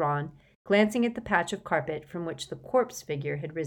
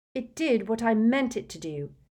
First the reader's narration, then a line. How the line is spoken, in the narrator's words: said Hermione rather crossly